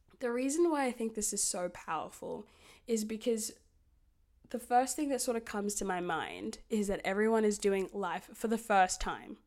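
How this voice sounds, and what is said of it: Hoarse, strained, lost voice. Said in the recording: “I'm sick ... my voice sounds like shit, because I've lost it and I'm really straining. I'm kind of like mid-yelling”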